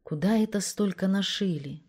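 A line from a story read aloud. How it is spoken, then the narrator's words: Sad, to herself. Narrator (Russian): грустно спросила сама себя Мариша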